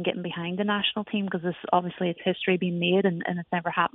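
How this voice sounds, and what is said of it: Slight Irish accent. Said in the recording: “you can tell I have a bit of an accent. I come originally from Ireland.”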